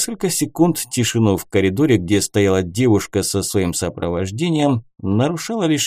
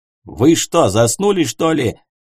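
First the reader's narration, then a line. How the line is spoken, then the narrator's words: Barking over radio. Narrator (Russian): рявкнул командир в рацию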